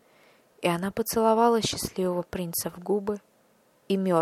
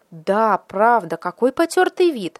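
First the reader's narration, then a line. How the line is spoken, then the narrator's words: Agreeing exclamation in chorus. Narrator (Russian): воскликнули члены городского совета, которые всегда соглашались с головой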